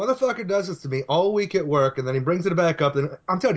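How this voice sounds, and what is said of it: Usual voice. Nothing is said of it.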